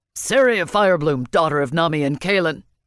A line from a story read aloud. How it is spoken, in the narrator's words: Madoc barked